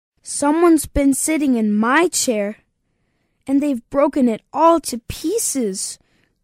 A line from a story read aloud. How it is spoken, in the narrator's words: cried the Baby Bear